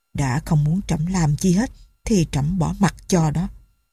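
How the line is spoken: Muttering to himself. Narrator (Vietnamese): vua lẩm bẩm như nói một mình

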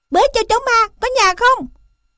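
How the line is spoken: Yell. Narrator (Vietnamese): hắn đã thét

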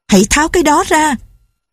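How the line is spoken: Angry woman screaming. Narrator (Vietnamese): Cô giận dữ thét lên

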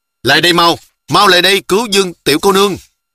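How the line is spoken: Distant shouting. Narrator (Vietnamese): Trong rặng cây liễu bên kia lại vang ra tiếng hò hét của Sư Bằng Tự nói

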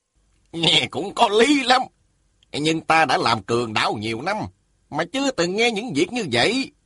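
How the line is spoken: Smiling. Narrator (Vietnamese): Sa Thiên Quảng mỉm cười nói

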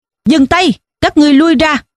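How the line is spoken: Loud arrogant shout. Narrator (Vietnamese): một tiếng quát lớn vang lên, nghe thật phách lối

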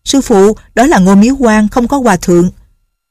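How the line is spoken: Calling out from afar. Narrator (Vietnamese): từ xa đã kêu lên

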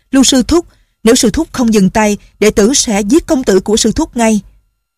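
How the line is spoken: Shouted. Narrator (Vietnamese): la lên

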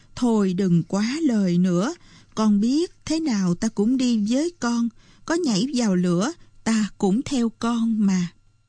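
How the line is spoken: Sighing reply. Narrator (Vietnamese): Bà Mực thở dài rồi đáp

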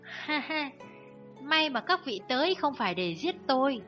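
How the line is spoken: Sighing, fawning laugh. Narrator (Vietnamese): Lão chủ lớn thở dài một cái, cười ve vuốt bảo

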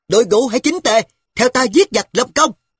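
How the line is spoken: Shouting. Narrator (Vietnamese): Ngoài dân thét

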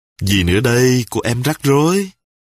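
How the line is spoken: Smiling. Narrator (Vietnamese): Ngọc mỉm cười

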